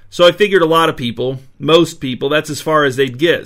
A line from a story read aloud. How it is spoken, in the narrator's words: said Farley